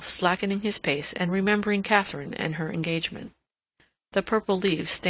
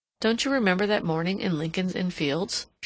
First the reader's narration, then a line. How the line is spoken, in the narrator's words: she asked